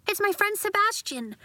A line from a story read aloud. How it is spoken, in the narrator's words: Nori blurted, wanting Father to be kind to her friends